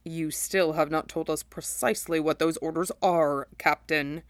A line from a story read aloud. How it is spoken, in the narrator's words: Sephiroth rumbled, his voice low and dangerous